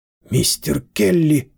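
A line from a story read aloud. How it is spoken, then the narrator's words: Hoarse rasp. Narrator (Russian): прохрипела Лидия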